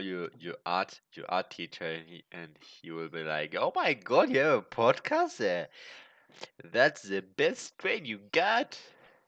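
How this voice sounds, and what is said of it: German accent speaking English. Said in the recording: “the German accent on start ... that's my German accent uh, speaking English”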